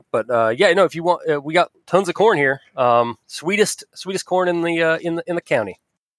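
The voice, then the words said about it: Put-on rural Southern Ohio accent. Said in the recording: “I don't know why I keep going with that accent. ... They typically will have that accent a little bit in Southern Ohio.”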